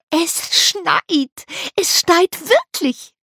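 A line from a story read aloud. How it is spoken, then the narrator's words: Squealing boys. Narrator (German): quiekten die beiden Jungen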